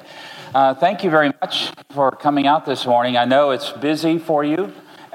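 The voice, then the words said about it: American accent. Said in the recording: “I'll try to speak slowly so you can understand my accent ... not to speak too much like an American”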